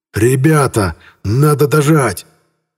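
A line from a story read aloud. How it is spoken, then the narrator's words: Hoarse yelling. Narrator (Russian): орал обычно спокойный Морозов сорванным голосом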